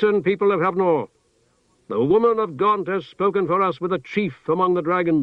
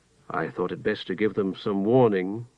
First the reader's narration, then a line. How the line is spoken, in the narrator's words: he said in his usual quiet voice to Tehanu